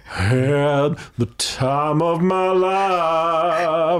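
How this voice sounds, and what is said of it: Singing in a deep voice. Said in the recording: “with the deep voice.”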